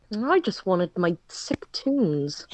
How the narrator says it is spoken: he mumbled

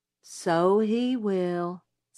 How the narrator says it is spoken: said Jim gloomily

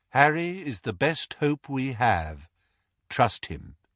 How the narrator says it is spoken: said Lupin calmly

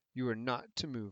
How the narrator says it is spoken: I said fiercely

